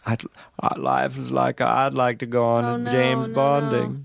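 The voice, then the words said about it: Imitates another person's voice. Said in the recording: “This is my Tom Hanks impression.”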